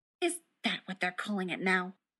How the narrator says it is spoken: Rodney said bitterly

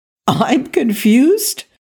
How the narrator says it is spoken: Blair sputtered

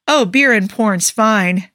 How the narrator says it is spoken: Carter said, her tone wryly amused

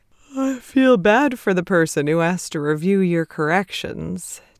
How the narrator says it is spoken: Ted said through a yawn

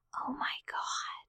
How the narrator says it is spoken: Laura said in a quiet voice

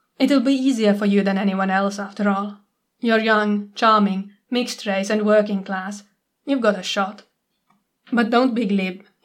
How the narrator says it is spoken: he adds quickly

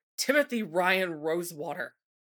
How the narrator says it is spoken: Nancy snapped, scowling

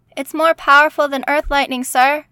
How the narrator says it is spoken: yelled Sam

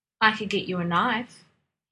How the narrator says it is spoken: he said

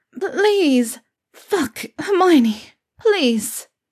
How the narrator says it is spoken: Pansy stuttered

